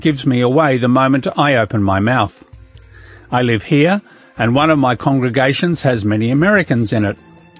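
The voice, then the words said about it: Australian accent. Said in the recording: “As you can hear from my voice, although I live in Great Britain, I am not from here. My Australian accent”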